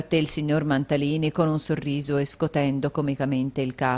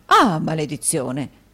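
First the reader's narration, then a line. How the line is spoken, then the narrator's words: Exclamation. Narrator (Italian): esclamò il signor Mantalini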